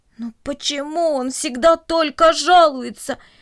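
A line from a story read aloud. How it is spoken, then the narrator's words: Groaning voices. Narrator (Russian): простонали растения кукурузы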